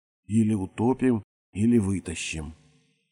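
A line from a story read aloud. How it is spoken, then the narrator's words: Quiet and confident. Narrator (Russian): Его собеседница говорила тихо, уверенно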